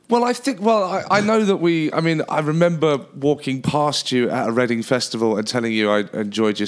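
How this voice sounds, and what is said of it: English accent. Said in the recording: “He's visiting here from England ... immediately when I hear someone's accent, you have my curiosity”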